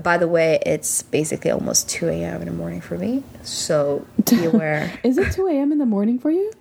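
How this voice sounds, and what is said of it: Sleepy, tired-sounding voice. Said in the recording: “sound a little ... sleepy because I'm very late. Since you always sound sleepy.”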